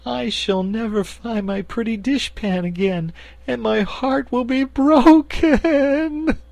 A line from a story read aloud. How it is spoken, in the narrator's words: she sobbed